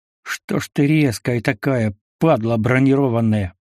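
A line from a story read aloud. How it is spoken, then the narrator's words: Cursing through teeth. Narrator (Russian): ругнулся я сквозь зубы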